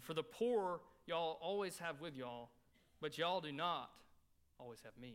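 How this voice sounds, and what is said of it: Southern American dialect. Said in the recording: “I love being from the South... I can read it in my own dialect... I'll give you the Southern version.”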